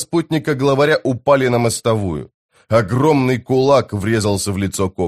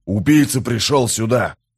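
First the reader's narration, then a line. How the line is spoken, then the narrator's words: Growl. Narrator (Russian): прорычал новоприбывший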